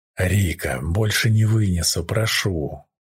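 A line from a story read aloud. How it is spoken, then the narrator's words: Hoarse croak. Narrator (Russian): Прохрипел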